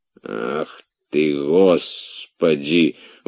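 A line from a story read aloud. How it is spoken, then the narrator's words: Grumbling. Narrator (Russian): ворчал Захар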